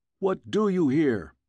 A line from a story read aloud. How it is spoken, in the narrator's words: shouted one